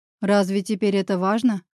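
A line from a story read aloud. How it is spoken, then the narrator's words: Scoffing. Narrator (Russian): хмыкнул Павел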